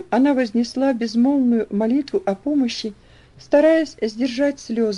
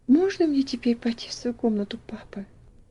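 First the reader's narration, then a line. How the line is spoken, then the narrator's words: Barely audible small voice. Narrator (Russian): спросила Элси еле слышным голоском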